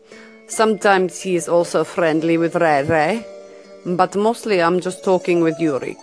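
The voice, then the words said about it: Fake Russian accent. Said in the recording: “fake Russian accent”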